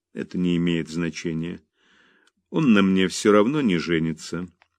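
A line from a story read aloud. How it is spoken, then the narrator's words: Calm, fearless. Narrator (Russian): спокойно сказала Мэрибет, сама удивляясь своему бесстрашию перед бурным гневом отца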